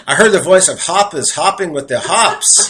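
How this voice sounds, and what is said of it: New York accent. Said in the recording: “I got to say this with my New York accent. My New York accent”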